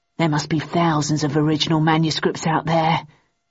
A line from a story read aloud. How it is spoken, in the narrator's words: murmured Shit